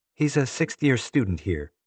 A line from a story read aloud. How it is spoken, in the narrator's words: Erica replied